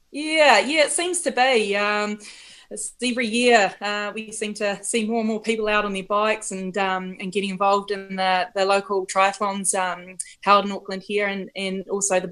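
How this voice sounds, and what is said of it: Strong New Zealand accent. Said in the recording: “That is a very Kiwi accent.”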